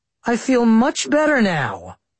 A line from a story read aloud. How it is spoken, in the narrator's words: I said sarcastically